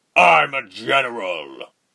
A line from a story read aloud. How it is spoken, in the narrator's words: roared over her, red in the face, veins bulging